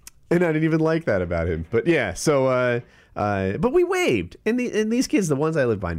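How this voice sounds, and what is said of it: Usual voice. Nothing is said of it.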